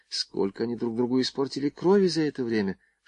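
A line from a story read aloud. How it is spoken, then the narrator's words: Whisper in ear. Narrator (Russian): шепнул Звонарев на ухо Варе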